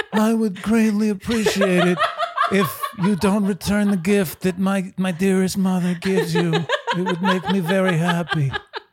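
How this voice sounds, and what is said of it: Mafia boss character voice. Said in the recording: “She's dealing with like a mafia boss here... It's a good impression.”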